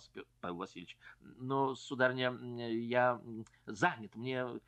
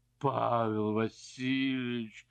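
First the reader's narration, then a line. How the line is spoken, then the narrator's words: Moaning, tearful. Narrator (Russian): простонала барыня, и глаза ее наполнились слезами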